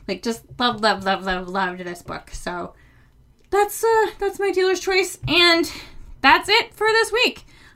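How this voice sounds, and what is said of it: Breathless, slightly out of breath. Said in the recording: “I'm almost out of breath. I got super excited talking about short stories.”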